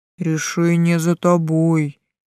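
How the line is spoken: Booming after pause. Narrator (Russian): прогудел Тессел после небольшой паузы

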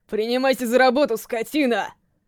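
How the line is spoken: Roaring. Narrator (Russian): проревел Нагаму

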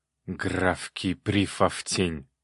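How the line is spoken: Angry grumble, softening. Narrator (Russian): злобно пробурчал Баритинский, но сбавил обороты

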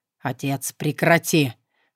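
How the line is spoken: Low growl. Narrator (Russian): глухо зарычал Александр

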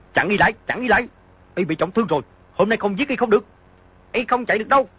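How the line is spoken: Shouted loudly. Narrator (Vietnamese): Hứa Tuyết Đình quát lớn

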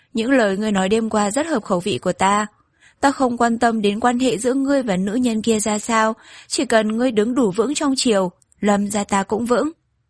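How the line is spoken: Laughing. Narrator (Vietnamese): Lâm Nhược Phủ không nhịn được bật cười nói

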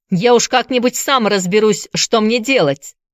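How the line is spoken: Snapping retort. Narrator (Russian): огрызнулся он

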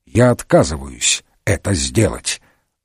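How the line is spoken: Stony, flat voice. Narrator (Russian): Все тем же каменным голосом Пуаро повторил

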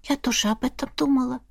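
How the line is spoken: Whisper. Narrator (Russian): прошептала Эрма

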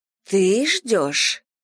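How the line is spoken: Breathless exhale. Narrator (Russian): выдохнула Микки

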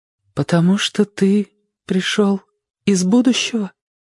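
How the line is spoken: Frightened question. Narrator (Russian): испуганным голосом спросила она

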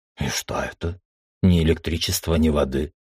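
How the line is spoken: Grumbling man. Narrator (Russian): Буркнул мужчина

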